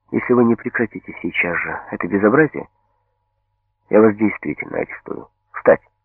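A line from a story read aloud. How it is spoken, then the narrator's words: Very quiet. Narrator (Russian): Лаврова сказала совсем тихо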